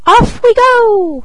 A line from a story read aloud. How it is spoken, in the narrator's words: cried he